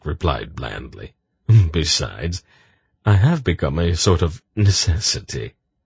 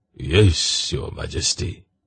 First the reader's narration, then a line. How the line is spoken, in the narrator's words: Brador sighed